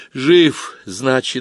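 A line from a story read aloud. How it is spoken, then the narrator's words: Sighing. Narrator (Russian): вздохнула Галка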